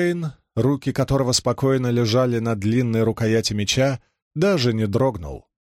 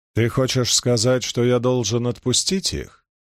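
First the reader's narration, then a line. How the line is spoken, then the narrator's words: Calm question. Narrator (Russian): спокойно спросил он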